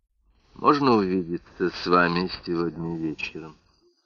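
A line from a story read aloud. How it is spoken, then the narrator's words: Quiet voice. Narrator (Russian): спросила Ноэль тихим голосом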